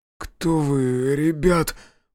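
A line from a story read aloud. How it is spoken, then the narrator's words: Shaken mumbling. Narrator (Russian): прошамкал Михаил, когда наконец-то отошел от шока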